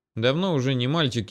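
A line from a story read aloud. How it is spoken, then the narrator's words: Grumbled. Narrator (Russian): буркнул Напалм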